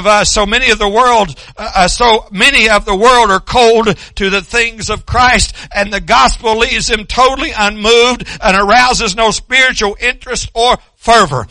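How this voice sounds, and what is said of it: Loud yelling sermon delivery. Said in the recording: “I'm yelling as much as I can”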